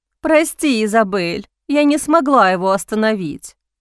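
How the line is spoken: Sighed. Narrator (Russian): вздохнула

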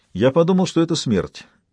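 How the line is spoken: Plain. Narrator (Russian): ответил Арман Гамаш

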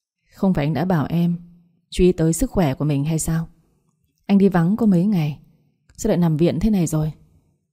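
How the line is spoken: Sighing. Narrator (Vietnamese): thở dài bước lại nói

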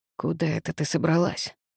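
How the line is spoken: Grim hoarse rasp. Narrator (Russian): мрачно прохрипел спартанец

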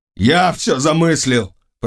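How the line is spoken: Shout. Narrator (Russian): прокричал Жак

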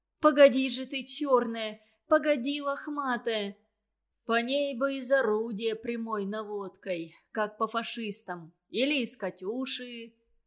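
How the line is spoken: Gloomy. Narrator (Russian): мрачно сказал Санька

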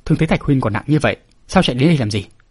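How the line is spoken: Stern. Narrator (Vietnamese): Hoàng Phủ Sơn nghiêm giọng nói

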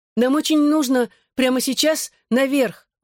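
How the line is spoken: Exclaiming. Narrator (Russian): воскликнул Рос

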